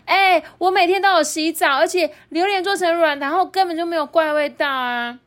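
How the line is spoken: Embarrassed loud voice. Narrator (Chinese): 被指控的铜锣烧姐姐羞红了脸，大声的说

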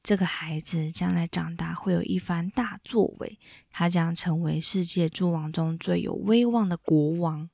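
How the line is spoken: Soft, gentle. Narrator (Chinese): 命运三女神轻声的对他说

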